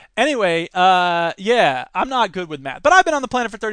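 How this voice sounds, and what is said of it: Usual voice. Nothing is said of it.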